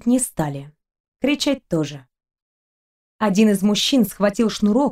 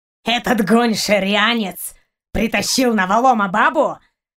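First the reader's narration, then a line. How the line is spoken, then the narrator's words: Angry snarl. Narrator (Russian): Зло оскалился Барк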